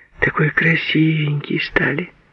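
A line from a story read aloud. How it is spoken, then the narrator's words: Quiet. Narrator (Russian): Тихо, подрагивая ресницами, говорила Фросе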